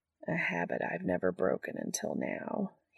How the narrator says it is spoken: he murmurs, too fascinated for there to be much bitterness in the words

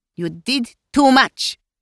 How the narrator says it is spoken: Melania snapped back

